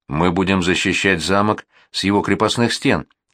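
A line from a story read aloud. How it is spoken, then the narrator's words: Plain. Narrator (Russian): ответила Лили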